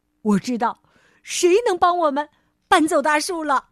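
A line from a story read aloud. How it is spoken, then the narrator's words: Excited shout. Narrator (Chinese): 弗瑞德兴奋的大喊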